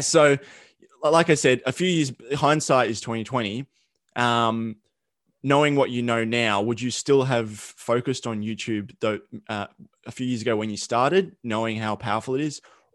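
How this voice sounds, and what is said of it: Thick Australian accent. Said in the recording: “It's like my Australian accent. It's like super thick”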